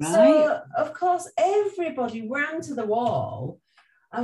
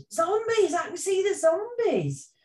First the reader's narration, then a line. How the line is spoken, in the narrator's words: somebody shouted